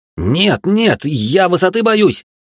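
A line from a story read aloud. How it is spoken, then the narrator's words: Terrified yell. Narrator (Russian): заорал я от страха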